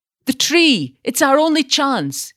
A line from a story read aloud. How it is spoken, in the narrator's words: shouted